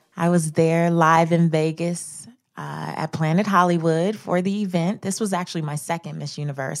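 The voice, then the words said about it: Slightly scratchy voice. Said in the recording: “my voice sounds a little scratchy today ... I screamed my head off.”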